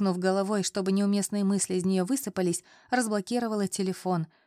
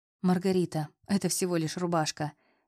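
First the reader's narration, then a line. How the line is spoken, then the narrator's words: Soft. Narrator (Russian): мягко произнес Аполлон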